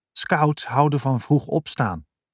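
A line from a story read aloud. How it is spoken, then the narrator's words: Whisper. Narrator (Dutch): fluisterde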